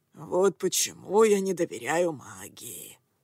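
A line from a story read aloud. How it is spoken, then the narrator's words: Grumbling. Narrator (Russian): проворчал Акаме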